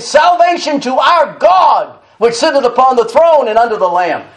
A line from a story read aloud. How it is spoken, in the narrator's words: They cried with a loud voice, saying